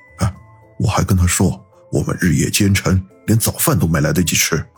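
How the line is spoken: Lowered voice. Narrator (Chinese): 萧景明又压低声音说道

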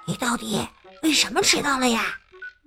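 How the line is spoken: Quiet reply. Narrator (Chinese): 朱莉安小声的回答说

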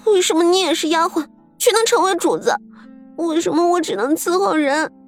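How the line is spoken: Crying. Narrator (Chinese): 彩云哭道

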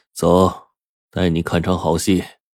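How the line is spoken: Eerie laughing. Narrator (Chinese): 大哥诡异的笑着说

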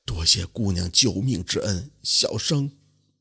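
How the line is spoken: Moved murmur. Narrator (Chinese): 心中也是十分的感动，嘴里喃喃地说道

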